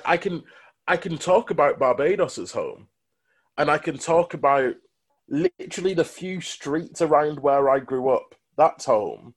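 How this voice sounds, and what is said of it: Greater Manchester accent. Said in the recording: “as a mixed race lad from Greater Manchester ... I've got this accent”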